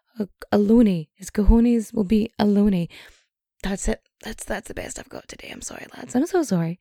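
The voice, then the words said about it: Strained, fading voice. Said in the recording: “my voice is starting to go”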